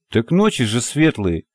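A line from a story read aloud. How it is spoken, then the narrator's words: Wry snort. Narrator (Russian): хмыкнул Парсыкин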